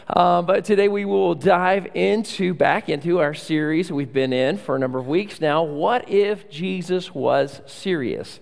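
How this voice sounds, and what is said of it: Voice affected, slightly off. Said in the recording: “apologize for the voice. ... I've got a little allergy this morning”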